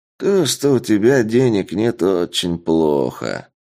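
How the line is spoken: Drawling. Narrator (Russian): протянул бандит

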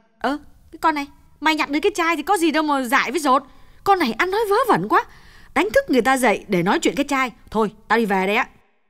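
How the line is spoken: Impatient snapping. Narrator (Vietnamese): Như nôn nóng gắt

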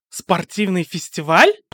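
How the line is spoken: Several students exclaiming. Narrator (Russian): воскликнула часть учеников

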